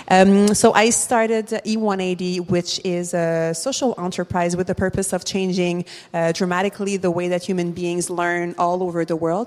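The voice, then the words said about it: Montreal-accented English. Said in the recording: “social entrepreneur from Montreal, as you can hear from my accent”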